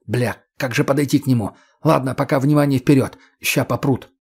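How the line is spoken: Irritated hiss. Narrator (Russian): Демич досадливо сплюнул, прошипев

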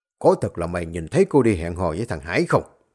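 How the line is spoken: Angry question. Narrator (Vietnamese): ông giáo Quấn hỏi với cái giọng tức giận

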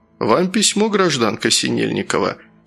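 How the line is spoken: Businesslike tone. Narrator (Russian): сказал он деловым тоном

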